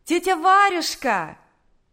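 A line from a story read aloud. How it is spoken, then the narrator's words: Shouted from a distance. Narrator (Russian): крикнула еще с улицы Наташа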